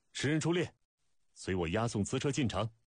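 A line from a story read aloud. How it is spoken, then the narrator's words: Loud startled command. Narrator (Chinese): 带箭头目惊讶跳开，高声命令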